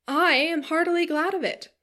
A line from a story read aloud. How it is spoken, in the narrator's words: he cried